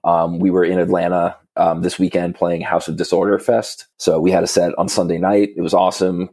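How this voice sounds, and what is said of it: Slightly hoarse voice. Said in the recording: “my voice might be a little hoarse from all the yelling”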